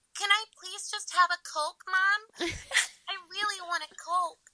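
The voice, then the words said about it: Talks like a little girl. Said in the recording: “And you just talk like this. ... Just talk like a little girl.”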